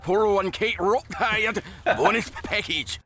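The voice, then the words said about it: Rough mock Japanese accent. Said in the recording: “It's just supposed to sound like Japanese ... in this very rough Japanese accent.”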